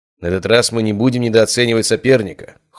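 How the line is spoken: Cold. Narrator (Russian): холодно ответил Брон

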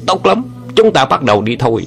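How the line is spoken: Furious loud shout. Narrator (Vietnamese): Song quái nghe xong cả giận quát lớn

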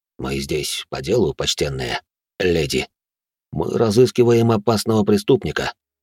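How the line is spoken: Unexpectedly soft tone. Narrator (Russian): Он неожиданно мягким тоном произнес

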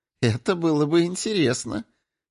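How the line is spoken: Giggle. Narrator (Russian): хихикнула молния

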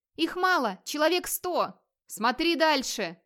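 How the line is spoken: Shouted reply. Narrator (Russian): крикнул в ответ Вигмар

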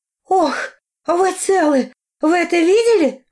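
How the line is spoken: Exclaimed. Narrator (Russian): воскликнула

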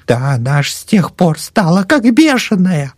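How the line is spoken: Near shriek, old woman. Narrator (Russian): Чуть не взвизгнула старуха

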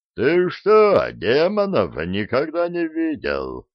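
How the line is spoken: Booming stranger's voice. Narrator (Russian): прогудел пришелец

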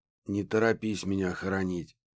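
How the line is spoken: Hoarse croak, coughing. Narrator (Russian): прохрипел Исаев и закашлялся

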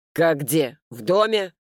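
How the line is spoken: Curt commanding tone. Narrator (Russian): генеральским тоном отрезал отец

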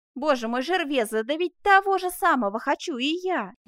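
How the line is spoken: Exclaiming. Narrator (Russian): воскликнул школяр

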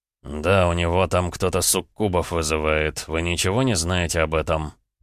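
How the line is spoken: Snide question. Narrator (Russian): ехидно поинтересовался этот

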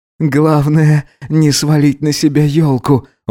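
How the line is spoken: Breathless, crying out, gasping. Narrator (Russian): выдохнул Гидеон, коротко вскрикивая на его толчки и ахая

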